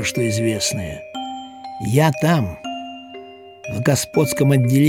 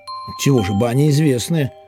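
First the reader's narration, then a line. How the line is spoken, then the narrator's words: Plain. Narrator (Russian): ответил Момус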